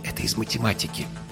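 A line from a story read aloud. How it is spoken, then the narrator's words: Groom's whisper. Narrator (Russian): шепнул жених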